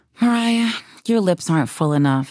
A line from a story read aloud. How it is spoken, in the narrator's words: she said with a sigh